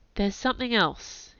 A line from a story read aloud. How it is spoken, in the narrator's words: he said hesitantly